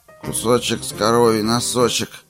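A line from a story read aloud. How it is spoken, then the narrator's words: Sleepy. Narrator (Russian): сонно сказал Генри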